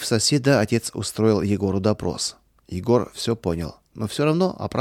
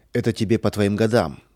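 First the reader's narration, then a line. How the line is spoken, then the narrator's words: Irritated. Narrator (Russian): сказал он раздраженно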